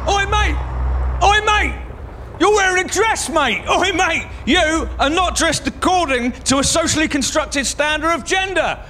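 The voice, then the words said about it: Aggressive shouting. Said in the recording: “I'm shouting at you ... a street-based shouty man”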